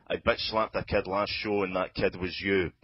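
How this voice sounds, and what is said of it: Scottish accent, rapping. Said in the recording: “fucking Scottish, okay? It's just Scottish. ... It's like Robbie Burns with filth”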